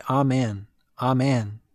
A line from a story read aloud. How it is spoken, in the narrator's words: Many voices cried